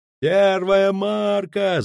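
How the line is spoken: Sailor bellowing. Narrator (Russian): заорал матрос с лотом

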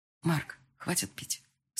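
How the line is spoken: Quiet speech. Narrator (Russian): сказала тихо

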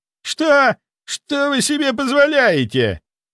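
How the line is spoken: Shrill squeal. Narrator (Russian): заверещал Михайлов тонким голосом

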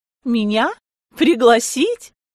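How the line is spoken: Laughing. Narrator (Russian): Я засмеялась

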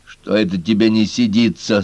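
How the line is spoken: Plain. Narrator (Russian): спросил его Отол-Тол

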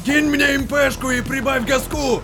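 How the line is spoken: Shouting. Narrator (Russian): закричал сержант

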